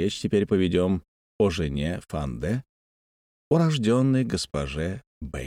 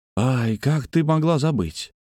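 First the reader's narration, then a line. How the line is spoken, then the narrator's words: Exclaiming. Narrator (Russian): воскликнул Фанде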